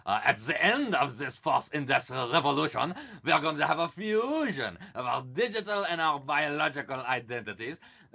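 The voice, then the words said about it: Put-on German accent. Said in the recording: “my German Klaus Schwab accent”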